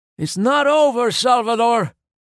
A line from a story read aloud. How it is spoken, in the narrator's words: yelled the driver